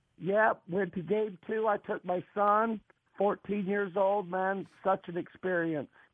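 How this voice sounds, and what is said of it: Hoarse, strained, nearly lost voice. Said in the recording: “Lost my voice again.”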